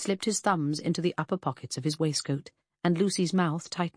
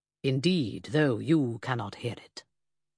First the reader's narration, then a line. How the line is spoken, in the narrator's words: told her gravely